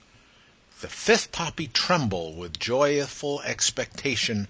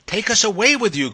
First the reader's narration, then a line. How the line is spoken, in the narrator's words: cried those four garrulous poppies